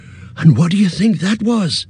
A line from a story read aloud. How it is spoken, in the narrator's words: Pippin asked at last, trying to speak lightly, but quavering a little